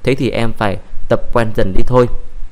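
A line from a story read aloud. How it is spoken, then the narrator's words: Laughing, then speaking. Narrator (Vietnamese): Cổ Ngự Hoài bật cười, sau lại nói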